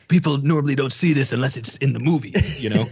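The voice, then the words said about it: Imitates another person's voice. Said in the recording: “very good Ben Stiller. Very, very good Ben Stiller impression”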